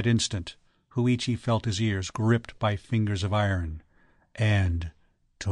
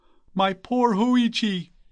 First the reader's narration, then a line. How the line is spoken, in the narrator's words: cried the startled priest